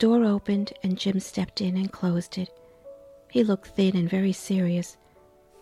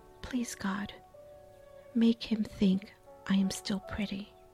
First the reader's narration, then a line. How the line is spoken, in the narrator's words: a little silent prayer, she whispered